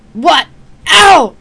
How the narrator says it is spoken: Palladia yelped as an uprooted trunk slammed into her legs

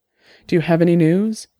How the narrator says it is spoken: she asked, almost breathlessly

